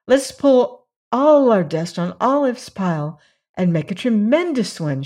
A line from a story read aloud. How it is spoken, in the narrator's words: exclaimed